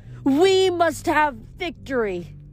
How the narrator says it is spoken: the goddess shrieked

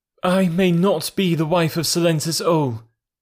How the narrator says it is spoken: she pleaded

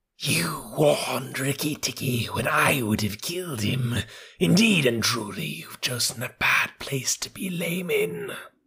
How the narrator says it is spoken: Nagaina hissed

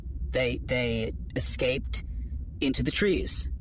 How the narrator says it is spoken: Johan stammered, knowing how foolish the words sounded

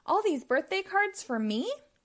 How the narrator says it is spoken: gasped Bob

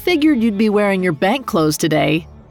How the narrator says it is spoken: Matt called out to Oscar

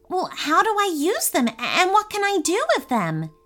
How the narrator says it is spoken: He asked Bruno excitedly

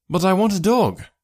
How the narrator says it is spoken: I cried

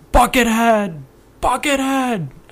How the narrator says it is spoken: screaming

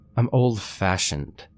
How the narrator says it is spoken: she just sighed and said

